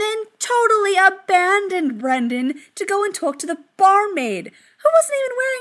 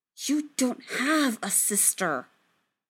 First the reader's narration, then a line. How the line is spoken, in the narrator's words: Brendan hissed at him